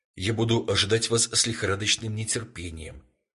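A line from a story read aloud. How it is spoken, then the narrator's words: Plain. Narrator (Russian): ответил молодой человек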